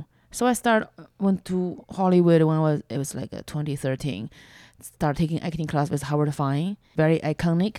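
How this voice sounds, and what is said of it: Non-native English, Chinese accent. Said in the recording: “my accent is a major problem ... they want a girl with American accent who was born here to put on a fake Chinese accent. They don't really want my authentic accent”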